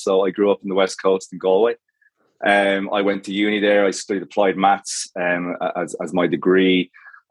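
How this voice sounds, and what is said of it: Irish accent. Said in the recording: “you might have guessed from the accent, like it might have thrown you, but I'm Irish”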